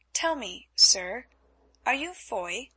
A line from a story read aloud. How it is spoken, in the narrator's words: asked Elsa in a puzzled voice